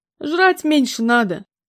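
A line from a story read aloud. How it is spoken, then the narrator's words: Rather rude remark. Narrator (Russian): довольно грубо заметила ему она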